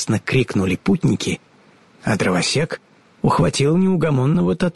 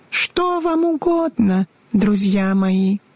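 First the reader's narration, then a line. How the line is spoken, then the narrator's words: Thin high voice. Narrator (Russian): спросила королева Рамина своим тоненьким голоском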